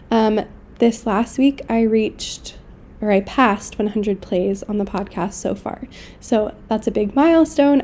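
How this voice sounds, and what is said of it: Sick-sounding voice. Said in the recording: “apologize for my voice. I'm starting to kind of get sick, so it's not sounding its best.”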